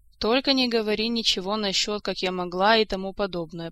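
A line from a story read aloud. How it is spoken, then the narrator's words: Sad request. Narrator (Russian): попросила Ольга, печально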